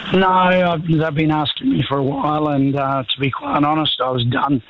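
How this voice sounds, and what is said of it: Sick, weak voice. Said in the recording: “I've just got the flu. I got the bot, so my voice isn't that good.”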